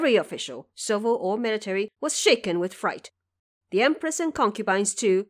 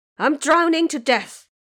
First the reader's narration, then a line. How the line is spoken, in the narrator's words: a voice could be heard from inside the coffin, yelling nonstop